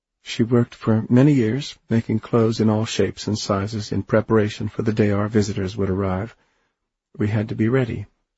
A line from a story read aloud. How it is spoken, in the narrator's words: Anne Silly said quietly